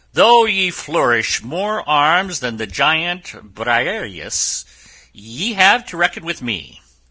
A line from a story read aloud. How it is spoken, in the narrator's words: Don Quixote exclaimed